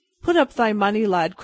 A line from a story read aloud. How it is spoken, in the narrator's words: cried quickly